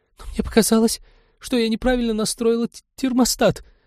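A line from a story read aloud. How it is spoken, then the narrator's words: Guilty babbling. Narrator (Russian): виновато залепетала ученая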